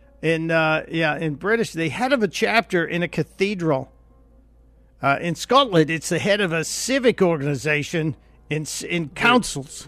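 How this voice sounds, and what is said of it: Put-on Australian accent. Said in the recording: “Why are we talking with an Australian accent?”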